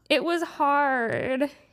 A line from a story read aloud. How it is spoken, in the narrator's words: whined